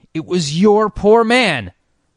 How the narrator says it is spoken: cried Jasper, in intense excitement

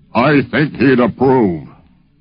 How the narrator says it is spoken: he said in that beautiful, booming voice of his

